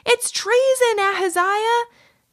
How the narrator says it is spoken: He called out to his friend

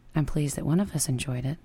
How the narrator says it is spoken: say dryly

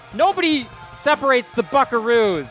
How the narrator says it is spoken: going to yell

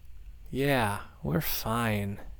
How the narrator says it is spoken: Nina said, suddenly aware of how much she was slurring

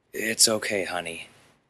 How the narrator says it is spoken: he whispered in his daughter's ear

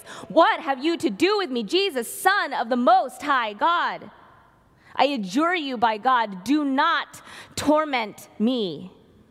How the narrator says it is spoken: he shouted at the top of his voice

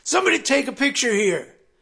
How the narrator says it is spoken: he'd put his arm around them and holler

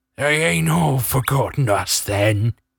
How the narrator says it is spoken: croaked, approximating a happy face

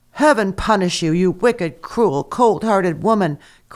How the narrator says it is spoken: cried the mother

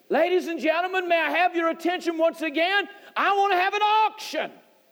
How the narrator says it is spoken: He shouted out, said

